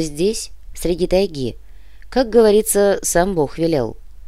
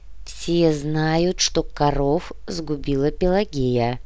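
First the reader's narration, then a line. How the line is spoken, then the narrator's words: Muffled repetition. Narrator (Russian): глухо повторил однорукий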